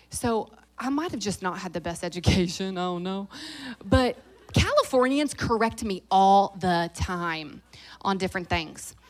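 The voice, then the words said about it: Fast-talking Southern US accent. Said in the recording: “I'm real Southern. I talk fast and I have an accent”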